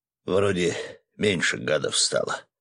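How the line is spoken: Muttering. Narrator (Russian): пробормотал Свет

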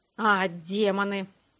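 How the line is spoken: Grumbled. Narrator (Russian): проворчал Грег

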